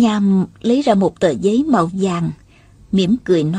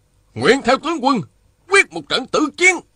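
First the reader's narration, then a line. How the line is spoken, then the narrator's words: Angry generals shouting. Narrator (Vietnamese): Các tướng quân đều giận dữ, hét to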